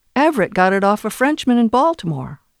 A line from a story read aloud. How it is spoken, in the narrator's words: Emma said